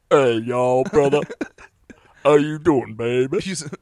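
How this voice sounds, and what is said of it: Put-on stereotyped Black American voice. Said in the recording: “I tried to do this black guy voice, and it was like real”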